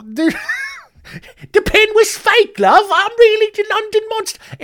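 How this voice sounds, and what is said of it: High-pitched put-on Cockney accent. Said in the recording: “this is also the only British accent I can do. Everything else turns Australian ... I've been fighting the Australian accent ... this awful, high pitched Cockney accent”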